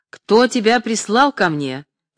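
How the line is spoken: Angry shout. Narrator (Russian): сердясь, крикнул Куратов

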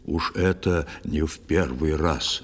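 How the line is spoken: Grumbling fisherman. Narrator (Russian): рыбак проворчал

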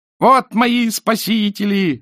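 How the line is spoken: Glad shout. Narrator (Russian): закричал, увидав вошедших, Петрицкий

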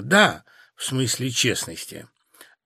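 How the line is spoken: Embarrassed mumble. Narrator (Russian): Я покраснела и пробормотала

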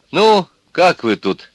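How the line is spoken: Cheerful question. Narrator (Russian): спросила она весело

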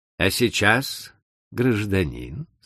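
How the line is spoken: Plain. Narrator (Russian): сказала Арсена

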